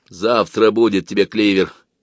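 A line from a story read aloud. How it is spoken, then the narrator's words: Grumbling. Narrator (Russian): проворчал Демьян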